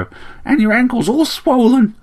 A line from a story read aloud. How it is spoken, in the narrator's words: chirped the sparrow